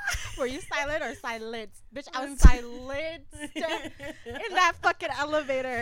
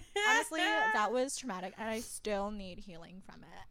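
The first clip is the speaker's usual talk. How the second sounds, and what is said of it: Sarcastic delivery. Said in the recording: “I'm just kidding. That was sarcasm.”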